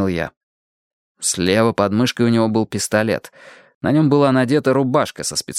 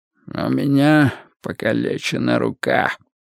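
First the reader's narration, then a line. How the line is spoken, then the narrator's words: Hoarse whisper. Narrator (Russian): Мигель Карьерос говорил хриплым шепотом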